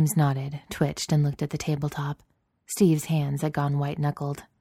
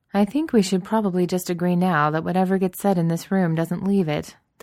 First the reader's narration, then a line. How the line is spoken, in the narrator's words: Delgado said dryly